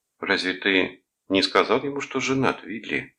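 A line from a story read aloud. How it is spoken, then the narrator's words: Plain. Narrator (Russian): спросила она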